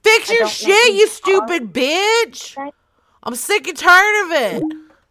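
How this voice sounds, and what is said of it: Yelling very loudly. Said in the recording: “So I'm just gonna yell at them... I'm talking very loud.”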